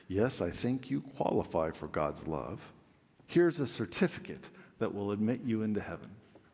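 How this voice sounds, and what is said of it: Very pious, reverent voice. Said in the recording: “in a very pious voice”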